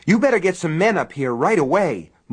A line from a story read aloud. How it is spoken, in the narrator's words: Morris cried